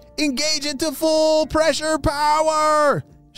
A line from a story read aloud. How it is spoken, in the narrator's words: shouted Oakley